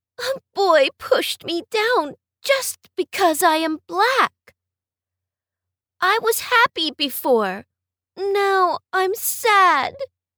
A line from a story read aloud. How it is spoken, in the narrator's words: cried brave Jack